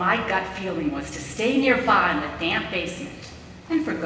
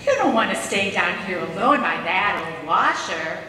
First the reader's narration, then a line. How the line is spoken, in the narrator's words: she would continue in her mother knows best voice